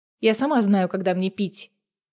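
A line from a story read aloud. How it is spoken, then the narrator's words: Snapping retort. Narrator (Russian): огрызнулась Неста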